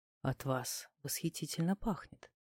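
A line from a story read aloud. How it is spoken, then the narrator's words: Muffled whisper, man. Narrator (Russian): мужик приглушенно шепнул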